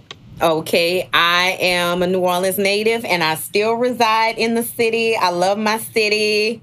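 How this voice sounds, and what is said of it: New Orleans accent. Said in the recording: “you guys are going to hear the New Orleans accent”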